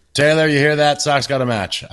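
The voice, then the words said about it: Yelling loudly. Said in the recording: “I'm yelling upstairs now.”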